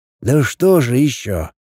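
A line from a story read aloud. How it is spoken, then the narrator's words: Sigh. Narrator (Russian): Лин вздохнул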